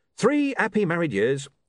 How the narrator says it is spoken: said Arthur cheerfully

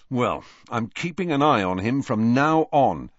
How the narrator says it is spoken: he said firmly

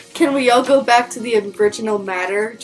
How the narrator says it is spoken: Draco groaned

